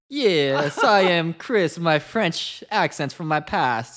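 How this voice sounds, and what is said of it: Terrible put-on French accent. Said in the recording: “That was a terrible French accent”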